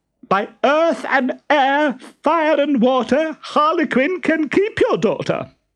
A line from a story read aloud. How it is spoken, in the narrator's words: shrieked Stentorello